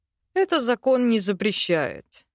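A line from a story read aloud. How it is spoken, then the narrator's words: Thoughtful. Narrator (Russian): задумчиво произнес тот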